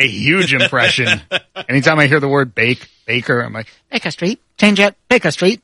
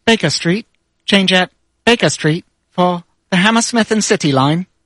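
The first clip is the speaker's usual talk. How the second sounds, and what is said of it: Imitates automated subway announcement voice. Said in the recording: “my best impression ever is the automated voice from the London Tube circa 2001”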